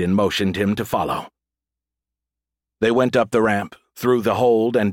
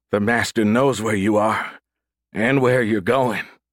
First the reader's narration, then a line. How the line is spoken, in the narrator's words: Bryant said, his voice choppy through chattering teeth